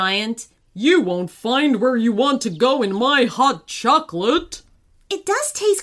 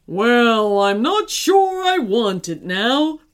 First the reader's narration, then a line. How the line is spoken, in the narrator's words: moaned the giant